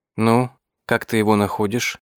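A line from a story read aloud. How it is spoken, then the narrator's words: Quiet question in French. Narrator (Russian): тихонько спросила меня Зира по-французски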